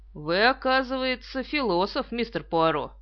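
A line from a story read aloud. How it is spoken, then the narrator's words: Cold. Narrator (Russian): Он холодно сказал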